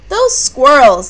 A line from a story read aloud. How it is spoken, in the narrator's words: Nana cried